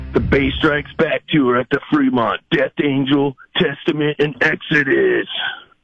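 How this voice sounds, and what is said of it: Announcer voice. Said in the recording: “let's hear your best announcer voice”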